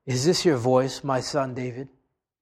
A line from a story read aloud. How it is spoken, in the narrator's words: Saul lifted up his voice and he wept